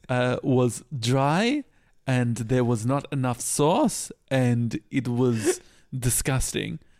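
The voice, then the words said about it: Impression of Manu's accent. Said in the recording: “This is Manu's accent.”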